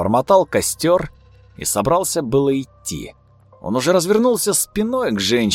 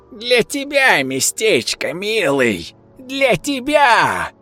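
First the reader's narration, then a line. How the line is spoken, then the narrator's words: Creaky cackling laughter. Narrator (Russian): Волна скрипучего хохота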